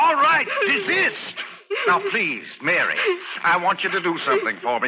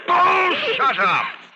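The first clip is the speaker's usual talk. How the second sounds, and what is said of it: Shouting. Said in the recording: “Stop shouting!”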